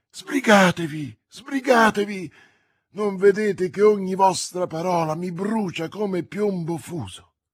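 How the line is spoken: Exclaiming. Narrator (Italian): Felton esclamò

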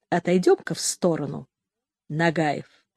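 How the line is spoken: Quiet private speech. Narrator (Russian): тихо, видно, не желая, чтоб другие слышали, сказал

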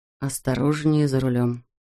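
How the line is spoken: Whisper. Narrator (Russian): шепнул ей Марк

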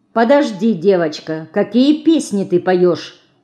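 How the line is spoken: Stern question. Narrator (Russian): строго спросила она

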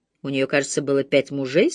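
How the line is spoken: Plain. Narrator (Russian): спросила мисс Марпл

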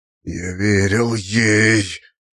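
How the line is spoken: Near-wheezing rasp. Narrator (Russian): Чуть ли не прохрипел он

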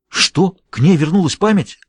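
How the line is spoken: Agitated exclamation. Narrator (Russian): взволнованно воскликнул Джулиус

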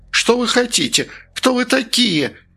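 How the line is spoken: Asked in a shrill voice. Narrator (Russian): визгливым голосом спросил он

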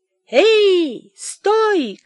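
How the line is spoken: Shout. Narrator (Russian): крикнул Михей Зотыч

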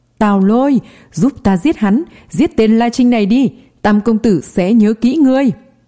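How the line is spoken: Desperate yelling. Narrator (Vietnamese): Chu quản sự đang bị La Trinh đạp dưới chân liền gào lên

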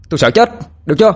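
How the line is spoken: Gritted angry shout. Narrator (Vietnamese): nó gằn lại rồi quát lên

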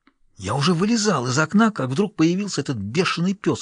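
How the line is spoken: Whispered reply. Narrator (Russian): шепнул в ответ Халварсон

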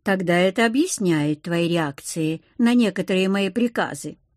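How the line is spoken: Calm reply. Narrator (Russian): спокойно отреагировал Иниоки

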